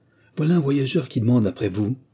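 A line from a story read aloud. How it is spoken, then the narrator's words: Grumpy exclamation. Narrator (French): s'écria-t-elle de sa voix grognonne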